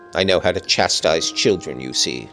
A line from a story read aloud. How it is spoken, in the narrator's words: said the scoundrel, grimly